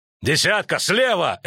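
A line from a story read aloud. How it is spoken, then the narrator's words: Barked. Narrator (Russian): рявкнул Нагорн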